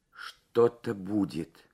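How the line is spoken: Whisper. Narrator (Russian): прошептала Лабисквы

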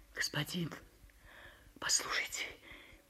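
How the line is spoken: Muffled whisper. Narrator (Russian): прошептала приглушенным голосом

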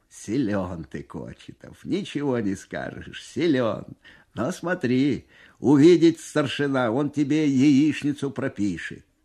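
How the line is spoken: Amused after hearty laughter. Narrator (Russian): Насмеявшись всласть и вытирая на глазах слезы, командир взвода лейтенант Бесов говорит

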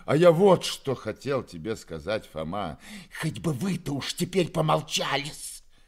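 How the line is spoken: Spiteful hiss. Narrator (Russian): прошипела Перепелицына, злобно

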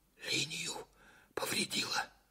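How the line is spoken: Whispered. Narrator (Russian): почему-то шепотом сказал Караваев

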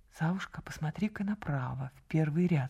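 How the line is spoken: Whisper. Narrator (Russian): шепнула она

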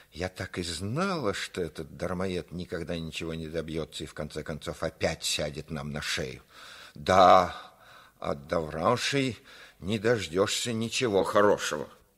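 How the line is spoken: Mother's sudden furious hiss. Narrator (Russian): Мать, вдруг разъярившись, зашипела

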